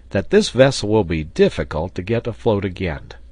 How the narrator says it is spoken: exclaimed Pencroft

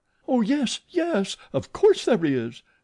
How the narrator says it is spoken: cried that little dried plum of a Meg Giry, heroically

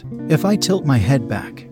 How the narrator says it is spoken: said

